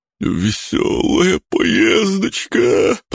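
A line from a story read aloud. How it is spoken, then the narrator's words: Groaning. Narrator (Russian): простонал Бран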